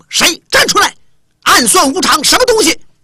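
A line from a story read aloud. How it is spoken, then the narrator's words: Indignant crowd shouting. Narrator (Chinese): 清风这边的弟子啊、朋友啊、师兄弟也都不让了，在西看台呼号就喊上了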